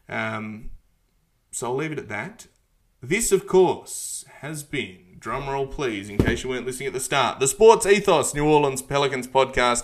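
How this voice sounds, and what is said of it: Australian accent. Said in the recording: “the dulcet Australian ochre accent”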